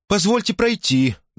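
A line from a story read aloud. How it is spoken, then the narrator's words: Trembling voice. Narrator (Russian): дрожащим голосом обратилась она к Дарреллу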